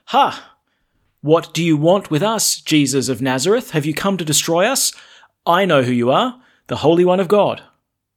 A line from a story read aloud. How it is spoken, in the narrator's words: a man who was possessed by the spirit of an unclean devil, and it shouted at the top of its voice